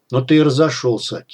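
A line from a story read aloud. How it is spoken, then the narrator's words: Quiet. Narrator (Russian): тихо сказал Шип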